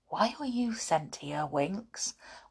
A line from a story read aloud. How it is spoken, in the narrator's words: whispered Binkie